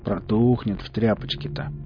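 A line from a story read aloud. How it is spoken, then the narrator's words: Upset snort. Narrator (Russian): Велес хмыкнул расстроенно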